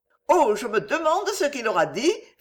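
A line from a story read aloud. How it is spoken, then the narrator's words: Cheerful. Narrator (French): fit Suzanne gaiement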